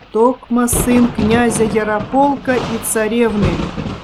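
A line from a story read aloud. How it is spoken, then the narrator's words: Hoarse voice from darkness. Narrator (Russian): прозвучал из темноты его хриплый голос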